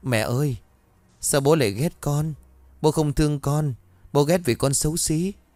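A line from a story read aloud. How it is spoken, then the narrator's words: Child's tearful innocent question. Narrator (Vietnamese): thằng bé mếu máo, ngây thơ rồi hỏi mẹ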